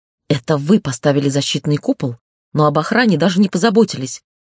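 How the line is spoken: Angrily spat out. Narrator (Russian): зло выплюнул я

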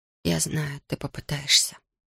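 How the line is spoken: Whisper. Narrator (Russian): прошептала она

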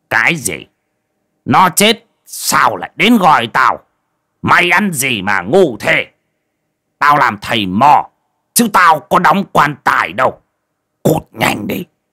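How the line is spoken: Old man turning angry. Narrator (Vietnamese): Giọng của lão thầy Mò chuyển sang tức giận

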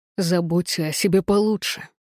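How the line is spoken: Growled. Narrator (Russian): прорычал он

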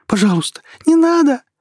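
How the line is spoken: Fearful shriek. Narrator (Russian): ее голос взвизгнул страхом

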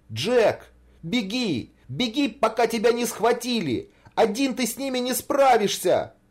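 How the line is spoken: Shouting urgently. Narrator (Russian): кричал Саша

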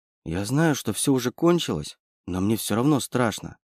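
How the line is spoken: Barely audible, frightened. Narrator (Russian): еле слышно произнесла Настя

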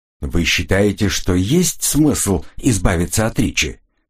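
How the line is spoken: Plain. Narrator (Russian): спросил Диэстл

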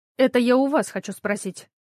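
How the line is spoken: Stern and sharp. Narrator (Russian): строго и резко сказала

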